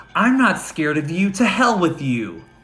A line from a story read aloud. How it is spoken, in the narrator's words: Angela screamed